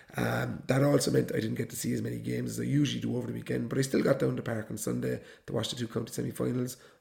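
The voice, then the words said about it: Voice in poor condition. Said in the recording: “my voice isn't in the best of condition. It's been giving me trouble for about a week now”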